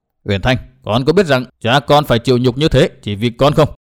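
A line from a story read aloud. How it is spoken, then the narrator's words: Cold reply. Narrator (Vietnamese): Hận Thiên lạnh lùng đáp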